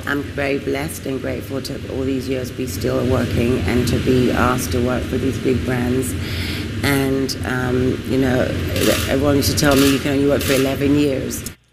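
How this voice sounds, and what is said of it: British accent. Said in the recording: “It's a British accent.”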